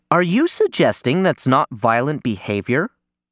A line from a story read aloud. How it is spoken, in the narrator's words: Helen Sharp asks